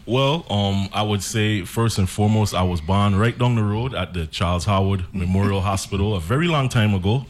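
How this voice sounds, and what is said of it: Speaking with a twang. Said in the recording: “twang from both of you ... So you're vacillating now back to the twang?”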